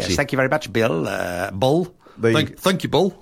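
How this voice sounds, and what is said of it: Badly done put-on accent. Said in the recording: “Don't stick to any form of accent because clearly it doesn't end well.”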